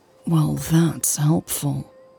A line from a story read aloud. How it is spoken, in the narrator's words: she mumbled sarcastically